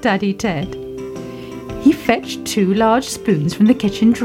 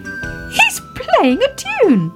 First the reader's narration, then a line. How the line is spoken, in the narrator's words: cried Baby Ted